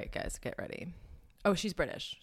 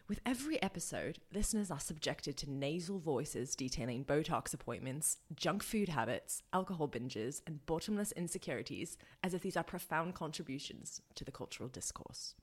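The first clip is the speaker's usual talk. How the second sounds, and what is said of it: Poor put-on British accent. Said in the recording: “Should I do it in the British accent? ... That was a horrible accent.”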